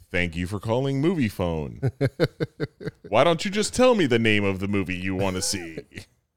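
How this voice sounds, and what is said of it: Movie phone announcer voice. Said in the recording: “That's like my movie phone voice guy. ... Movie phone voice.”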